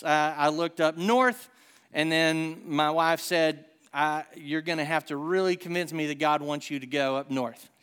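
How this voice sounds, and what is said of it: Rural Southern American accent. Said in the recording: “a guy with me and my accent ... this is my non-hick accent, and it's bad. So you can imagine how bad it gets.”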